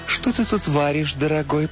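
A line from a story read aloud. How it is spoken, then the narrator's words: Cooing. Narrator (Russian): проворковала она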